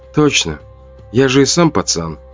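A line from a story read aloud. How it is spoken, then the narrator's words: Soft whisper. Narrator (Russian): тихо прошептал я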